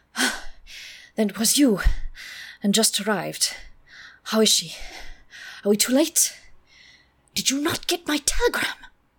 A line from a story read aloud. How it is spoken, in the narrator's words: he gasped out